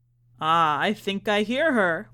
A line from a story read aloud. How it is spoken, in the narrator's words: laughed the magician